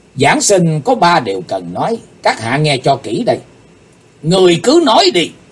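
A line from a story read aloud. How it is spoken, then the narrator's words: Stern shout. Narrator (Vietnamese): Chí Tôn dựng ngược đôi mày quát tiếng nói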